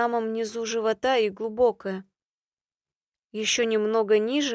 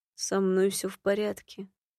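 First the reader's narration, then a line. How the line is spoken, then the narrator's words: Quiet demon voice. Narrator (Russian): тихо заговорил демон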